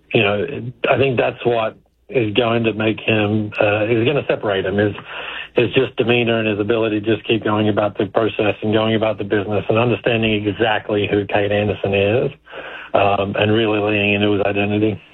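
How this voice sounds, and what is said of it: Australian accent. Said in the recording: “sounds like an Australian accent.”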